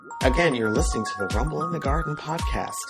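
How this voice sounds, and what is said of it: Low sultry sexy voice. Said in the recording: “you have a sexy voice ... now I just went phone sex operator here”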